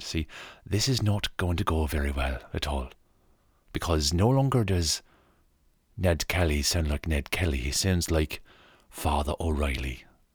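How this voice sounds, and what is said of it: Put-on Irish accent. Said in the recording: “that won't go very well if we start to do an Irish accent.”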